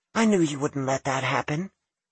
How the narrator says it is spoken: she snuggled against him, saying soothingly

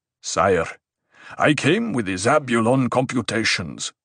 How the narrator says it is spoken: Stilgar said

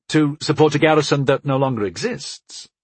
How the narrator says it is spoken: I asked

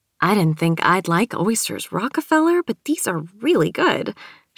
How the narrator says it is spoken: she said happily

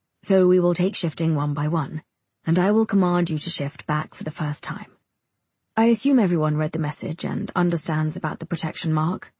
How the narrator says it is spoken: he asks

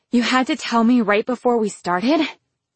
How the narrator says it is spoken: His chest was puffing in and out as he gasped

